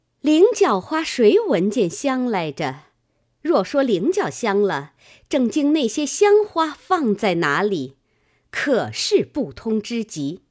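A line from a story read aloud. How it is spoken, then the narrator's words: Scornful cold laugh. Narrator (Chinese): 金贵鼻孔里嗤嗤两声，拍着掌冷笑道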